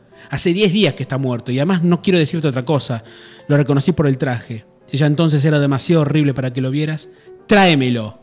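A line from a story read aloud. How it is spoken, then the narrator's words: Woman shouting. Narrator (Spanish): gritó la mujer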